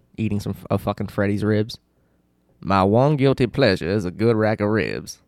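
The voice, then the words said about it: Imitates another person's voice. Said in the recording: “my Frank Underwood impression”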